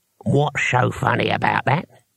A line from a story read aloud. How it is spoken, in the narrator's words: he asked, and his voice had knuckles in it